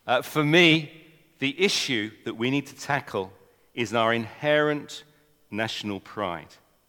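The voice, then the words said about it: English accent. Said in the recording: “I'm an Englishman. You might not notice from my accent.”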